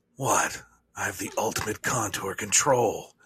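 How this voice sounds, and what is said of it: Impression of Shadow. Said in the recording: “what would Shadow say ... Do an impression”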